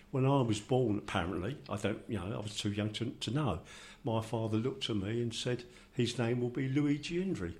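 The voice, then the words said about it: London Cockney accent. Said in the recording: “my accent, I'm sure you will all understand, doesn't sound very Italian because I was born in Finsbury, and I've I've got a gore blimey, mate, we ain't off in a two and eight now voice”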